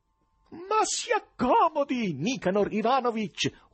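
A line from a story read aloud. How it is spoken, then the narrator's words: Fawning shout. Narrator (Italian): urlava, senza il minimo imbarazzo, strisciante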